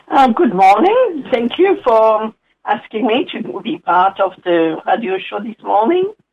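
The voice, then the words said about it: Slight French accent. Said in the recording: “a little bit of a hint of an accent there, your origins are in France”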